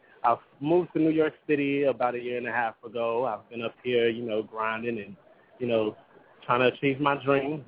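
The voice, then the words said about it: Country Texan accent. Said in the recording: “If you haven't heard the country accent, I am from Dallas, Texas.”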